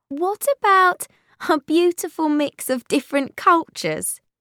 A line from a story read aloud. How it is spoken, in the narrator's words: asked Willow with a laugh